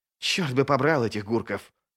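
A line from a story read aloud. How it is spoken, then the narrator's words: Hiss. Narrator (Russian): прошипел стириец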